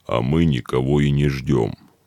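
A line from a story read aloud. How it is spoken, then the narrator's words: Gloomy bass voice. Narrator (Russian): мрачным басом сказал Шауль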